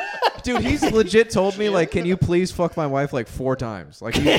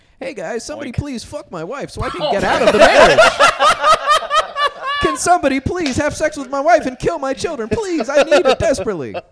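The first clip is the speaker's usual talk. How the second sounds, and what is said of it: Imitates another person's voice. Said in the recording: “good Jim Perry impression ... It's like he's in this room”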